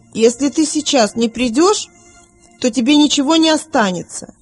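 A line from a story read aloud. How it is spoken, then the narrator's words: Shouting. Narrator (Russian): Вилли крикнул матери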